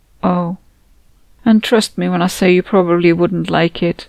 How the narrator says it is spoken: said sadly

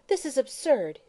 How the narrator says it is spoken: she exclaimed

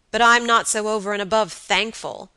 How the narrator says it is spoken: answered her lover savagely

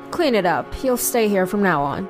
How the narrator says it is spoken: coldly said

